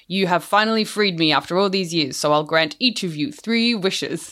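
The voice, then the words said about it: Booming genie character voice with accent. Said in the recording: “it booms ... Do you like my accent?”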